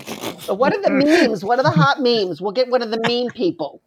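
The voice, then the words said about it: Imitates another person's voice. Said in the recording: “my impression of Kevin Feige”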